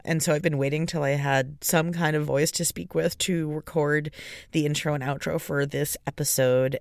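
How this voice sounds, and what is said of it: Sick-sounding, unusual voice. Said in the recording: “my voice is not what it usually sounds like. I've been very sick.”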